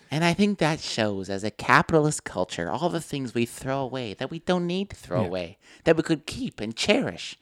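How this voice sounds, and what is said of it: Pretentious college student voice. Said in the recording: “That was my impression of a pretentious college student”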